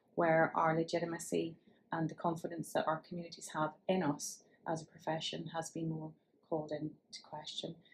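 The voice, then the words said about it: Northern Irish accent. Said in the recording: “from my accent. You can tell I hail from Northern Ireland”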